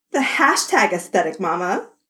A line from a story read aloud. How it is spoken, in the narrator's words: Athena called down cheerfully